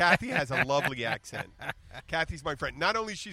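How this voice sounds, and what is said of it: Usual voice. Nothing is said of it.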